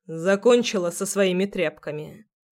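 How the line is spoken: Mocking question. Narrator (Russian): насмешливо спрашивает он

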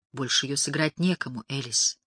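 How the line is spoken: Near whisper. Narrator (Russian): почти шепотом произнес он

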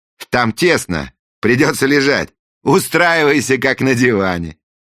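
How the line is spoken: Cheerful instruction. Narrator (Russian): весело проинструктировал принц

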